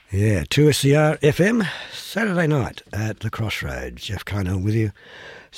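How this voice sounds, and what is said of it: Croaky, recovering voice. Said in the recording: “Still with a kind of a, here we go, croaky voice ... my voice hasn't, it's recovered somewhat”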